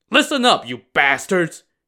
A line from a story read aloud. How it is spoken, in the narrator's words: barked